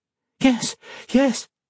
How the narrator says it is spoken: Modo exclaimed, beaming

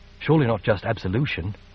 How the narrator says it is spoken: she said softly

